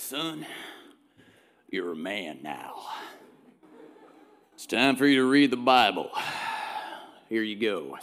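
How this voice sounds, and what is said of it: Put-on southern accent. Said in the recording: “My dad didn't have a southern accent, but it helps for the story”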